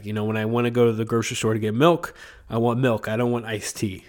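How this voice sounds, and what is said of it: Sick, congested voice. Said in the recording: “my rant for like 5 minutes in my sick voice”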